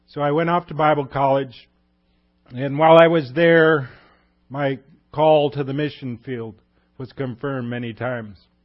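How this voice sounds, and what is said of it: Strained, fading voice. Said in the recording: “I'm losing my voice here, folks, because four churches in 24 hours isn't such a good idea.”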